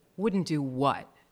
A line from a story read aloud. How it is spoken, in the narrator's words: George asked sullenly